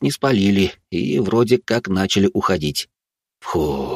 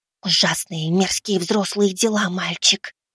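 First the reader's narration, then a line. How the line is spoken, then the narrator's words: Whispered. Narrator (Russian): прошептала моя подруга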